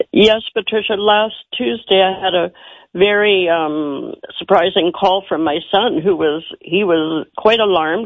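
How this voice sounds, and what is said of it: Lowered voice from a cold. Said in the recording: “I apologize for my voice. It's normally soprano, but I've had a cold.”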